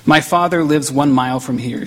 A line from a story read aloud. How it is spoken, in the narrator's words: she said